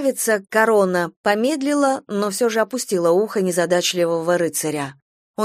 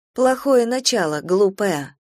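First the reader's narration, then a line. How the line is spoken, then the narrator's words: Quiet. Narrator (Russian): тихо сказала она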